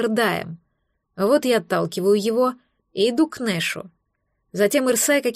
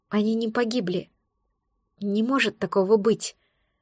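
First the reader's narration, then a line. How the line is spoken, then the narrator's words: Repeated whisper to oneself. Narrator (Russian): шептала себе вновь и вновь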